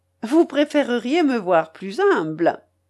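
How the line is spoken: Laughing. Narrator (French): dis-je en riant

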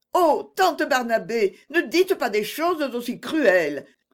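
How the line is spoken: Hurt exclamation. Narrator (French): s'écria Agnès, très blessée

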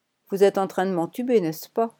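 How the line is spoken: Cold young woman. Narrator (French): lâcha froidement la jeune femme

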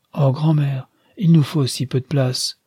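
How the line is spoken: Exclaiming. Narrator (French): s'écria Nastia

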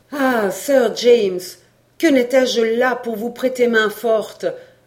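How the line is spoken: Exclaimed. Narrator (French): s'écria Robert Kergorieux

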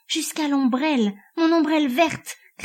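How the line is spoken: Crazed laughing shout. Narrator (French): cria Lucetta, avec un rire de folle

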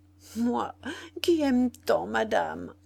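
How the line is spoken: Stammering. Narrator (French): balbutiait Zoé

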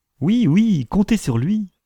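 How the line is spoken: Cheerful wife replying. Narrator (French): répondit sa femme gaiement

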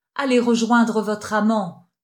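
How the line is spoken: Thundering deep bass. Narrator (French): tonna la basse profonde

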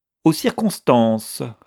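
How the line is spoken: Curt reply. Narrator (French): répondit sèchement Miss Van Vluyck

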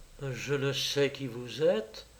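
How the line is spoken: Young girl murmuring. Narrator (French): La jeune fille murmura

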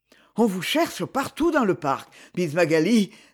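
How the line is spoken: Breathless. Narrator (French): dit-il d'une voix essoufflée

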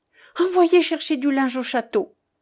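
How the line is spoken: Quick urgent cry. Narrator (French): s'écria vivement madame de Raucourt

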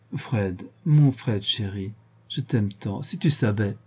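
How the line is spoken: Tender murmur. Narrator (French): murmura d'une voix devenue caressante

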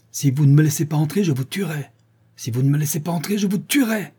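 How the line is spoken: Howled threat. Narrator (French): disait-il, ou plutôt hurlait-il

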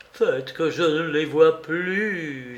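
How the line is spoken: Moaning. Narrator (French): gémissait-il

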